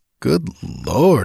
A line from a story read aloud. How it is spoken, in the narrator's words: I muttered stupidly